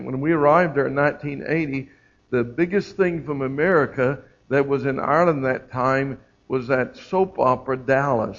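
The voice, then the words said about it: Irish speaker with an Oklahoma accent. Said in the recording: “from Ireland that's lived there 30 years with Oklahoma accent.”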